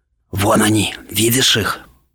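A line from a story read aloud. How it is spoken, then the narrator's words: Boy whispering. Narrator (Russian): прошептал один из мальчиков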